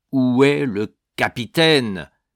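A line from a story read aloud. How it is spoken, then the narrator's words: Thundering shout. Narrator (French): cria-t-il d'une voix tonnante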